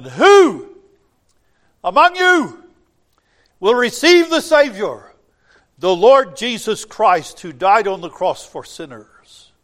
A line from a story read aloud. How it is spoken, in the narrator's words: the evangelist cried out in the middle of his sermon